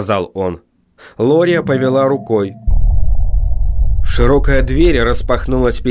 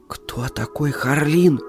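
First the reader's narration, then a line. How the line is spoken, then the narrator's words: Whispered question. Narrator (Russian): шепотом спросила она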